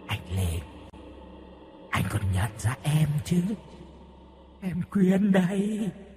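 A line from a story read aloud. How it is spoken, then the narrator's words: Soft female voice. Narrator (Vietnamese): Miệng của người con gái đó khẽ nói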